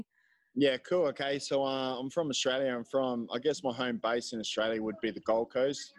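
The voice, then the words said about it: Noticeable, distinctive accent. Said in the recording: “listen to this accent of his. It's really cool, right?”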